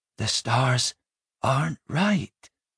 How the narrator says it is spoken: he said at last, so quietly that none heard him

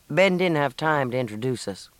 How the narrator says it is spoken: Matt told her somewhat dryly

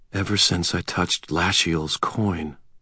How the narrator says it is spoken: I breathed quietly

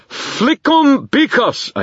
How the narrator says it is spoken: I shouted

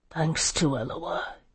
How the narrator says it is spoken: he murmured

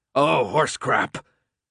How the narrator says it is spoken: Alec barked, cutting him off

